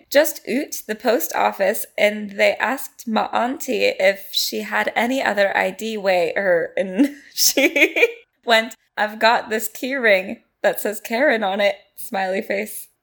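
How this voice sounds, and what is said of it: Flat robotic voice-assistant reading. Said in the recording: “do you want me to read it like Siri? ... Like Siri.”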